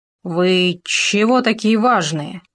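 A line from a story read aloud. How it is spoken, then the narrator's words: Hoarse. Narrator (Russian): прохрипел он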